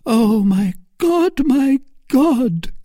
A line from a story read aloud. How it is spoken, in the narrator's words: cried Milady